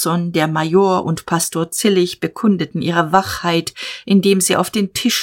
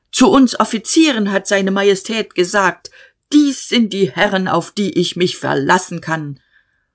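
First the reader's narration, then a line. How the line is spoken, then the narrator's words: Shouting. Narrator (German): Der Major schrie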